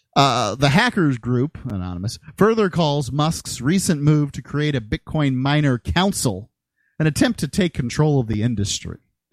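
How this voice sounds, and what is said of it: Slight American country accent. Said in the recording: “I do have a bit of the country accent.”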